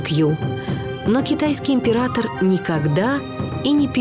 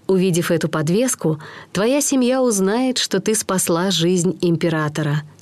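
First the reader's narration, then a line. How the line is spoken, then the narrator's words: Plain. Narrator (Russian): сказал он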